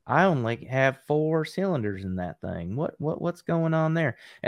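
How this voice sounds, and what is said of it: Deliberately bad put-on redneck accent. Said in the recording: “What are you doing with that voice? What are you trying to personify there? ... my bad redneck impression.”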